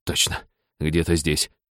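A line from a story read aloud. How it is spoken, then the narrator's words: Mutter. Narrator (Russian): бормотал Сакай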